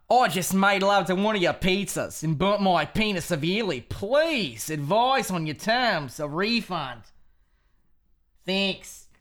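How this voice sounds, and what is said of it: Put-on Australian accent. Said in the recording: “Can I read it just in like an Australian accent instead? ... Read it with an Australian accent.”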